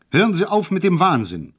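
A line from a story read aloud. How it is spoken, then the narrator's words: Called out. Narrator (German): rief ich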